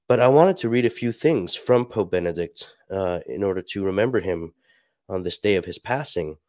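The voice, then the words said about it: Stuffy, congested voice. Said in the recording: “I'm a little sick, so I apologize if I sound stuffy.”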